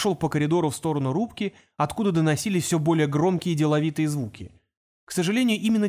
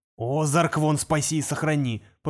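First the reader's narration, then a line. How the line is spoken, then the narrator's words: Grumbling under breath. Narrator (Russian): пробурчал он под нос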